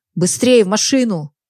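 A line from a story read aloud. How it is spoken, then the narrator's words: Bandit shouting. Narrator (Russian): крикнул бандит остальным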